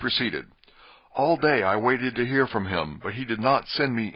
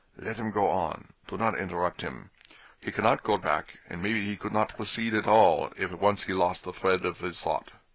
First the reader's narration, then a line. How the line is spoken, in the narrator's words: Van Helsing whispered to me